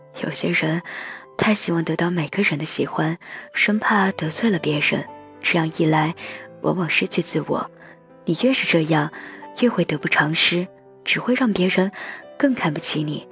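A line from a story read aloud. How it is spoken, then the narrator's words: Sighing. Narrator (Chinese): 他叹了口气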